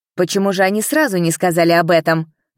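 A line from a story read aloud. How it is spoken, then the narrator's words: Officer exclaiming. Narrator (Russian): воскликнул другой служитель порядка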